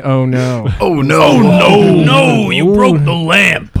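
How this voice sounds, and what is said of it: Imitates another person's voice. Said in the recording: “do an impression of him”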